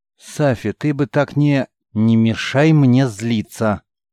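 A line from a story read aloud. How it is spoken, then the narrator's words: Slow, syllable by syllable, through gritted teeth. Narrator (Russian): Сквозь зубы, медленно, по слогам, чтобы не взорваться, ответила девушка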